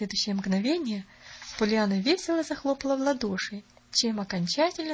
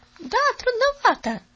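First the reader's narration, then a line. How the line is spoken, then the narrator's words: Girl's exclamation. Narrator (Russian): воскликнула девочка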